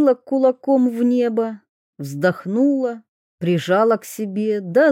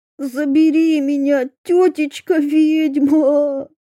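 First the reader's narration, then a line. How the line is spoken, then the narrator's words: Wail. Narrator (Russian): взвыл Микитка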